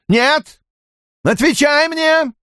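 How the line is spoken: Shouted. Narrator (Russian): Айс Седой крикнула

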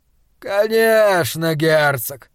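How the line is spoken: Lazy contented drawl. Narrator (Russian): протянул Гудвульф, как согревшаяся на солнце кошка

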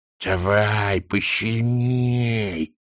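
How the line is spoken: Lisping. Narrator (Russian): прошепелявила она

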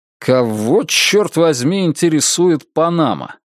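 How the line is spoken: Irritated question. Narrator (Russian): Теперь уже я спрашиваю раздраженным тоном

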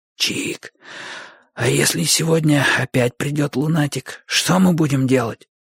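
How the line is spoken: Whispered question. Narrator (Russian): шепотом спросил Бочо

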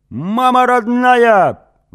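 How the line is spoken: Howling wail. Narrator (Russian): взвыл Тен

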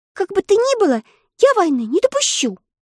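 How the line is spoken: Resolute exclamation. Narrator (Russian): решительно воскликнула Элли

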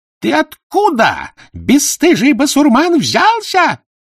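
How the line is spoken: Shrill screaming old woman. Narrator (Russian): визгливо закричала, забыв свой сан игуменья

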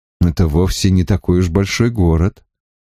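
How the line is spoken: Cautious and soft. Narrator (Russian): осторожно и мягко сказал Гет

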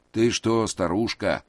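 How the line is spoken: Grumbling. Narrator (Russian): послышалось ворчание Рида

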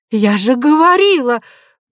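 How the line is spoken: Exclaiming. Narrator (Russian): воскликнула Нинеля

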